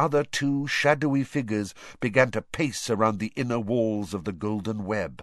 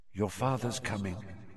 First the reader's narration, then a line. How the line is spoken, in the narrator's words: she said quietly